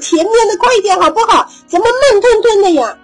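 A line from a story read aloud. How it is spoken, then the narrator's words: Impatient shout. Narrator (Chinese): 排在最后的他还是急躁的喊着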